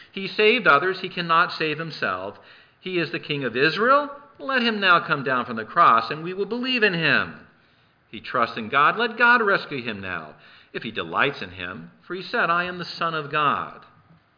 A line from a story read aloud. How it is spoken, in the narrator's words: were mocking him, saying